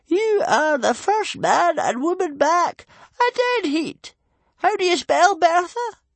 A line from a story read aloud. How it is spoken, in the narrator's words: Stoic laughed